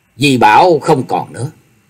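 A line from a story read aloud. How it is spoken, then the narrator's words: Cold. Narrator (Vietnamese): Diệp Linh Tô lạnh lùng nói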